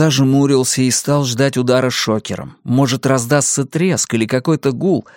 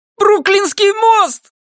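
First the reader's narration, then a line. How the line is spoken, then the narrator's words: Yell. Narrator (Russian): заорал Люк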